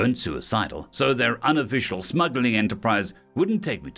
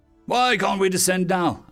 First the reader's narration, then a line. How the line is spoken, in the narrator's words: I barked